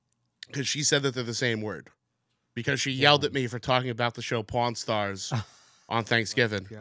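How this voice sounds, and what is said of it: Usual voice. Nothing is said of it.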